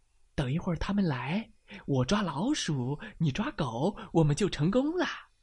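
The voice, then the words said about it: Quiet, hushed speaking voice. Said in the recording (Chinese): “小声”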